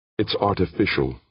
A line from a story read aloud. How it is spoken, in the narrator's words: said tightly, no doubt in him